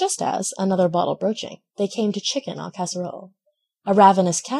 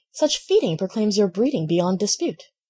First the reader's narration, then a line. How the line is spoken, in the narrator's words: The country cousin exclaimed